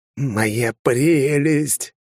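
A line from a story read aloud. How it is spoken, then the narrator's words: Creaky imitated creature voice. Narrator (Russian): проскрипел я голосом голума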